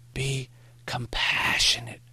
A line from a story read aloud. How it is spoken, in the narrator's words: Maury whispered